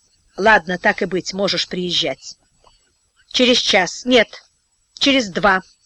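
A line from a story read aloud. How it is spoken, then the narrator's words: Curt, clipped speech. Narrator (Russian): Отрывисто проговорила она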